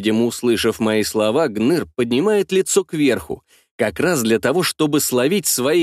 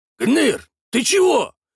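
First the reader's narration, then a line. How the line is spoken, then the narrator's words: Worried question. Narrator (Russian): взволнованно спрашивает напарника Жмых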